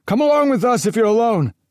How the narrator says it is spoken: someone shouted

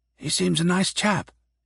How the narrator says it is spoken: Karas whispered quietly to Shevinsky

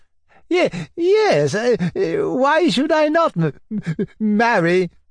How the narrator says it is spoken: said the old man, confused and bewildered with all the cries and exclamations around him

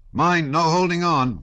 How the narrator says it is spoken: cried another

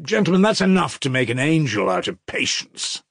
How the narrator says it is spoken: exclaim from time to time

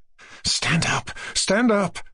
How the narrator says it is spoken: said in a frightened whisper

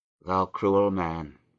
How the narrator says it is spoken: he said at last with a sigh

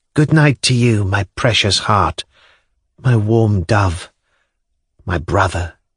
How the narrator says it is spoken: said, tenderly, tears

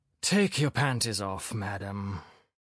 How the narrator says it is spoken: Philip Filippovich said with a sigh of relief

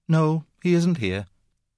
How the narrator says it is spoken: said sadly

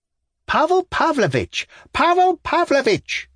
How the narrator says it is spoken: shrieked the voice from the carriage, in despairing accents, as though someone were being murdered

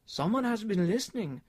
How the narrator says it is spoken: cried Carl, taken aback

